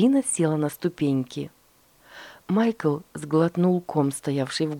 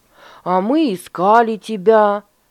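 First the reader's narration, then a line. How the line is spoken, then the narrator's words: Exclaiming. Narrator (Russian): воскликнул Дуэйн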